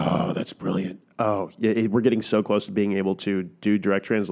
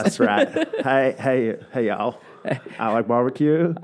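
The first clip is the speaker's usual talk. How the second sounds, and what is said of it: Poor imitation of another person's accent. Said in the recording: “this poor version of this accent”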